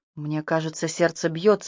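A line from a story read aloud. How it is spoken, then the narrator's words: Uncertain whisper. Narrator (Russian): неуверенно прошептал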